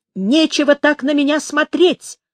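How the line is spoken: Shrill shout. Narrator (Russian): пронзительно выкрикнула

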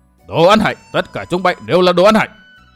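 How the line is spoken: Furious thunderous roar. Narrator (Vietnamese): Tây Môn Lập Thiên tức tối điên cuồng quát vang như sấm

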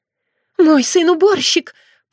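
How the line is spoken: Moaning mother. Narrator (Russian): простонала мать незадачливого лиса

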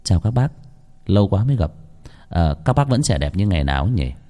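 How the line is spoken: Gentle, refined voice. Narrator (Vietnamese): giọng nói nhẹ nhàng nho nhã vang lên

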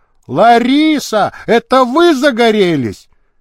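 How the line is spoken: Loud shout to be heard. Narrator (Russian): Шаров громко крикнул, чтобы услышали на дамской даче

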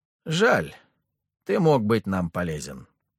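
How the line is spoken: Sighing. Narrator (Russian): вздохнул Маска

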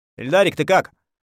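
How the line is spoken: Loud question. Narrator (Russian): спросил я громко

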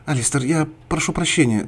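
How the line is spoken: Flustered babbling. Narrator (Russian): залепетала Мария

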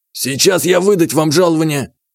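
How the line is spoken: Shouted. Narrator (Russian): крикнул он

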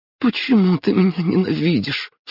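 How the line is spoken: Sobbing young woman. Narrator (Russian): всхлипнула девушка

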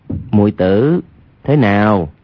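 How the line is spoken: Lowered voice. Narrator (Vietnamese): Hoàng Nhan Khang hạ giọng nói

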